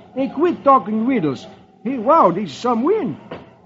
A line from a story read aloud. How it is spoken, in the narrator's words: Beetle exclaims